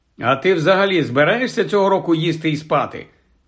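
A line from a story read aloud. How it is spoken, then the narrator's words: Plain. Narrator (Ukrainian): запитав Гаррі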